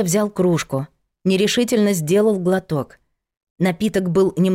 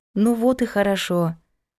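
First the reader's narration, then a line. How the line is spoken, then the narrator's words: Affectionate. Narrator (Russian): сказала ласково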